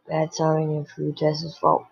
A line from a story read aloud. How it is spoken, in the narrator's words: Rick murmured